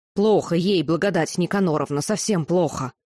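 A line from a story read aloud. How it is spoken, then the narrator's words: Witch's sharp bark. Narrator (Russian): ведьма как рявкнула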